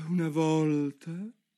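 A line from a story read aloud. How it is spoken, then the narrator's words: With a heavy sigh. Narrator (Italian): disse finalmente con un sospirone la tartaruga d'Egitto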